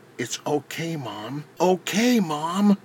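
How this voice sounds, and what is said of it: Soft, gentle voice. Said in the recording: “in a soft voice”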